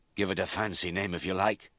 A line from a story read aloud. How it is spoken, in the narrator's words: Mac panted